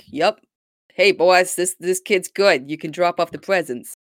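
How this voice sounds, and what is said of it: Bad put-on Boston accent. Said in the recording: “in that accent, definitely ... the elves are from Boston, like a bad Boston”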